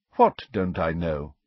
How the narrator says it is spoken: asked Dumbledore calmly

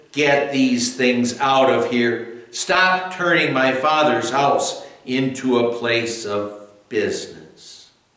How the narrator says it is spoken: he shouted

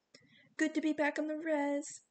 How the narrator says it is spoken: one asked in a sweet voice

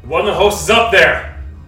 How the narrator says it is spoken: Yelling up to you

